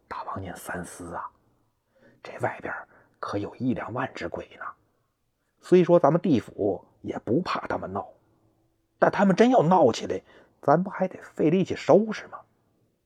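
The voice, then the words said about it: Whispered, hushed speech. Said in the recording (Chinese): “小声说”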